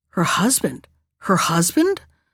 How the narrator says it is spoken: all the rustling, writhing crowd of snakes seemed to whisper to one another

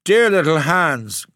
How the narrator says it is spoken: cried the miller

